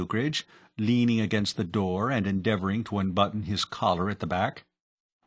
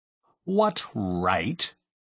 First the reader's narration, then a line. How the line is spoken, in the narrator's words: he added in an aggrieved tone